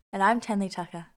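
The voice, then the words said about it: Smooth radio-style voice. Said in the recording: “Oh, listen to that voice coming through. ... So smooth. ... Radio voice.”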